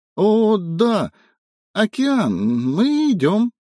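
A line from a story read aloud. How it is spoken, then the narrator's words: Exclamation cut off fearfully. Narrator (Russian): воскликнул Эва и испуганно смолк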